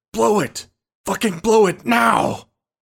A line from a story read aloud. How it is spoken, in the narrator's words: Thomas bellowed the words